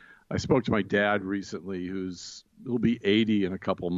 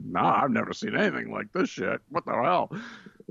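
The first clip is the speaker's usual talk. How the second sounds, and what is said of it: Imitates another person's voice. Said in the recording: “That was a killer impression of my dad”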